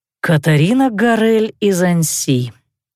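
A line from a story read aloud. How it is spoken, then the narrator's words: Sighing. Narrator (Russian): вздохнул Давидек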